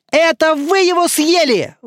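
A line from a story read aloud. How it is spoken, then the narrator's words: Indignant group shouting. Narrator (Russian): возмущенно закричали они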